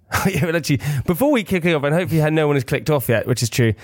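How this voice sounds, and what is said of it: Usual voice. Nothing is said of it.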